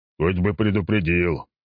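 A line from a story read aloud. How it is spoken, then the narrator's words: Grumbling. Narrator (Russian): проворчал начштаба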